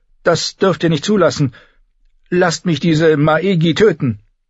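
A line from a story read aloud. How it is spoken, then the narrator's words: Pleading. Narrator (German): flehte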